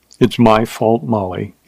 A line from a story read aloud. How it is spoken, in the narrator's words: he said softly